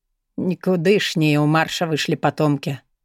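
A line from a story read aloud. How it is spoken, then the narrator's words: Gloomy mutter. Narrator (Russian): угрюмо пробормотал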